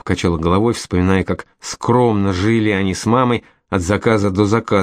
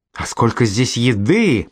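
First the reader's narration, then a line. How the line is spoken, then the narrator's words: Moaning. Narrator (Russian): простонала она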